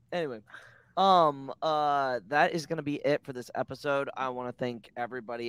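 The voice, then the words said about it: Strained, fading voice. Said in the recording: “my voice is going out.”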